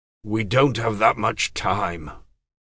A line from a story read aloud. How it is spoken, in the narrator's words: Pug said